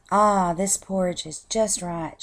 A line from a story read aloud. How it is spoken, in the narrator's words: she said happily